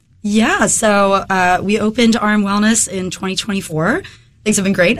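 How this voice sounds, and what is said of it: Slightly hoarse voice. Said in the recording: “I'm getting over a head cold right now ... if my voice is a little hoarse”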